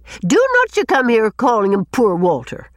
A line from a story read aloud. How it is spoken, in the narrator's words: said Susan indignantly